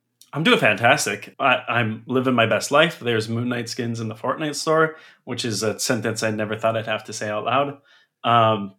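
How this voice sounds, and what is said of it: Congested, rough-sounding voice. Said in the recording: “I have a cold, so I sound like crap”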